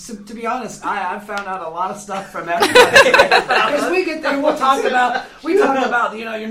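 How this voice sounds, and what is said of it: Usual voice. Nothing is said of it.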